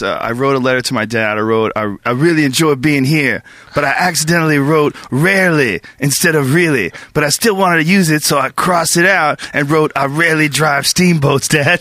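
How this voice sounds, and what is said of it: Imitates another person's voice. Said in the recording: “That was a great impression”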